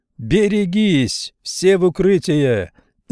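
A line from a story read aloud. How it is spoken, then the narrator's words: Shouting. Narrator (Russian): закричал лейтенант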